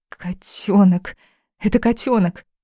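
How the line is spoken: Delighted exclamation. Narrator (Russian): воскликнула, увидев маленькую плоскую мордочку

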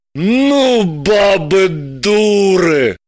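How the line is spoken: Sympathetic exhale. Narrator (Russian): сочувственно выдохнул Гравлин

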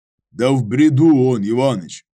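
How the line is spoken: Deep bass. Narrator (Russian): пробасил Данилов

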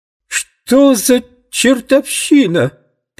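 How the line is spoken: Unnaturally shrill shout. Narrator (Russian): прокричал продавец неестественно пронзительным голосом

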